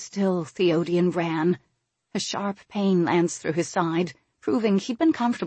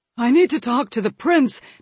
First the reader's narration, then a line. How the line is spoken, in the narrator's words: Theodian panted, barely able to get the words out